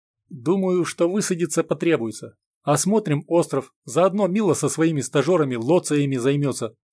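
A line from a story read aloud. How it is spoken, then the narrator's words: Plain. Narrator (Russian): ответил Степан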